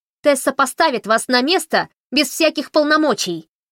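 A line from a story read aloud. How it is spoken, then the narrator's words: Shouted. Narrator (Russian): крикнула Фанни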